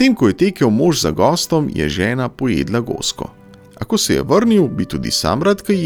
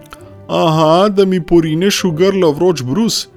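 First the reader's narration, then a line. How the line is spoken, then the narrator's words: Calling back. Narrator (Slovenian): je oni zaklical nazaj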